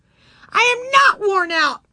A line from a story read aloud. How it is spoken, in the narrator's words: shrieked